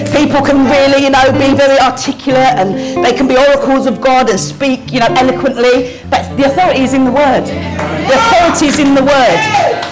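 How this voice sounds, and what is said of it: Mild Cockney accent. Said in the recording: “my accent, oh, it's a bit of a Cockney accent.”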